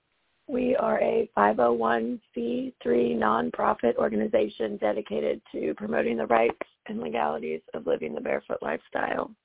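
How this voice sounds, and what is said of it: Hoarse, failing voice. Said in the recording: “As you can, I'm sure, tell, my voice has decided to bid me adieu this weekend.”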